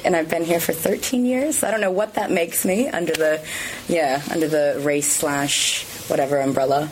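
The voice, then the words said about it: American accent. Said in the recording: “do I detect an American accent?”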